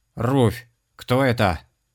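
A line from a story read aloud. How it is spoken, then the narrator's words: Shouted. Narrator (Russian): закричал он ведьме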